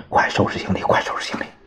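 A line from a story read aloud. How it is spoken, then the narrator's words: Low voice. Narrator (Chinese): 汪精卫对老婆低声说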